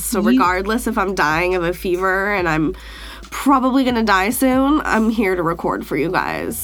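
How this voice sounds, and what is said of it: Rough, sick-sounding voice. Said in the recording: “my voice sounds horrible because I'm dying sick, like on the edge of death sick right now ... my shitty voice”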